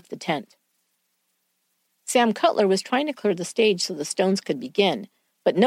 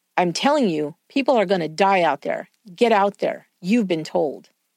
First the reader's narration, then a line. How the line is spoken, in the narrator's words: William growled at him